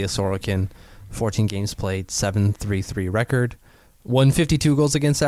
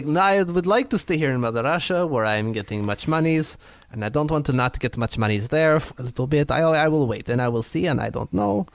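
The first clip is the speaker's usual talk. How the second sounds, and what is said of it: Put-on Russian accent. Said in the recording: “It is my best Russian accent. ... It's all about rolling the R.”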